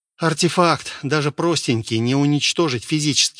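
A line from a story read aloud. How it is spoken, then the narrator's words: Sighing. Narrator (Russian): вздохнул он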